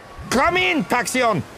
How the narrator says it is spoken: Vigo shouted into a comlink

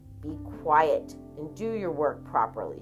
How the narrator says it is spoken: she told her son, her voice murderously low

